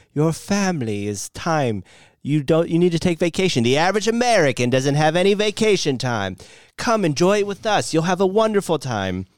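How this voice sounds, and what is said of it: Put-on Victorian street urchin accent. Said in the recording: “you did like a little accent there ... are you a Victorian era street urchin?”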